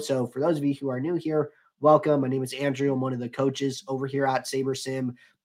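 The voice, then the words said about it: Slow, monotone, under-the-weather voice. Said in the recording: “I'm a little under the weather today, so probably going to be going a little slower. Might sound a little monotone”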